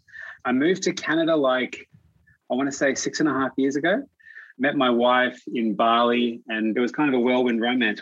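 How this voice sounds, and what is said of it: Australian accent. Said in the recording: “you can probably tell with the accent, I'm from Australia”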